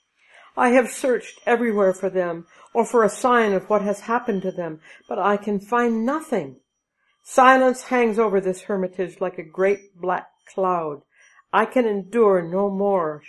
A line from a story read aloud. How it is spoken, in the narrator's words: she cried